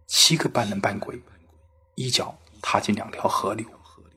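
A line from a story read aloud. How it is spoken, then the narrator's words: Low, carefully enunciated repetition. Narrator (Chinese): 也压低声音，用比较标准的发音重复道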